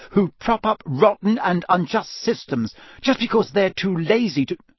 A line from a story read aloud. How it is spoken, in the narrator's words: Hermione began hotly